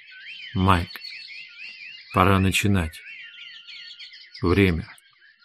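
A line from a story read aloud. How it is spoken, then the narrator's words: Very soft. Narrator (Russian): Хейген сказал очень мягко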